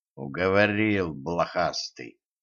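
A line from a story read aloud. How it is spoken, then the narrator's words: Through gritted teeth. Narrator (Russian): процедил Кощей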